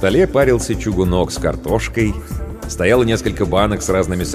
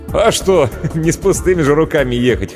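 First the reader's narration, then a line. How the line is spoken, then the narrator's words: Short laugh. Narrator (Russian): хохотнул Иван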